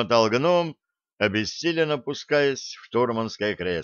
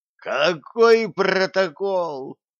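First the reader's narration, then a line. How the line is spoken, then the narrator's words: Groaning. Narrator (Russian): простонал гном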